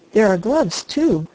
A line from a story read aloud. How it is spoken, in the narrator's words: exclaimed the harvester